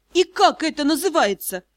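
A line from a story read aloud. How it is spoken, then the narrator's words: Indignant question. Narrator (Russian): возмущенно поинтересовалась Дара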